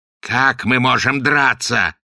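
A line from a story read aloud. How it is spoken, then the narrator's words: Angry yell. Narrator (Russian): гневно заорал Огл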